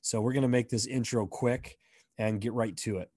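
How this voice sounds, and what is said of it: Hoarse, rough voice. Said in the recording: “My voice is a little shoddy. It's not like that on the episode, but I'm just getting over some laryngitis.”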